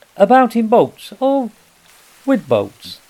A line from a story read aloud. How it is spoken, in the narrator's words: the rat went on composedly